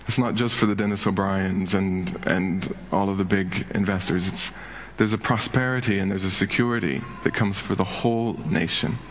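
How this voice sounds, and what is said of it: American Indiana accent. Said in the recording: “you hear this Indiana accent coming out ... Americans”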